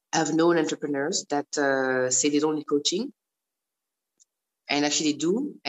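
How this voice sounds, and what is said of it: Strong French accent. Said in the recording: “my strong accent ... I'm Francophone”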